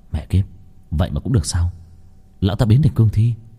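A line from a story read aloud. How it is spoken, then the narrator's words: Muttering. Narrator (Vietnamese): Long Vân lẩm bẩm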